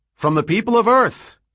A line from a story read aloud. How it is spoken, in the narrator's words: shouted Amaral